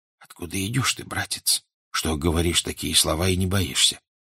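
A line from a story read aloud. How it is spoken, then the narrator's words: Almost whispering. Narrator (Russian): он сказал почти шепотом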